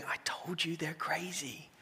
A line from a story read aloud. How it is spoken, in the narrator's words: whispering